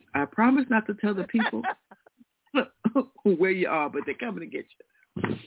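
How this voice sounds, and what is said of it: Allison Williams impression. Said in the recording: “in my best Allison Williams voice”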